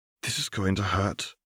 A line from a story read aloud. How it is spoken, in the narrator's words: Dorea murmured